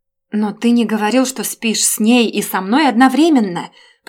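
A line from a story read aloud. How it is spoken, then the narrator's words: Shouting too loudly. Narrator (Russian): прокричала я слишком громко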